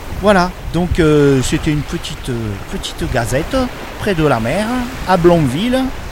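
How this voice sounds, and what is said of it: Put-on regional French accent. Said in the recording (French): “Je sais pas pourquoi je prends un accent, parce que c'est pas du tout l'accent normand.”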